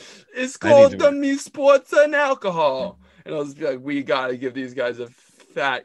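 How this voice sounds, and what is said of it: Usual voice. Nothing is said of it.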